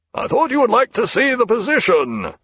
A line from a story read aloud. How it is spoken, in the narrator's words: said Jack, in a mild roar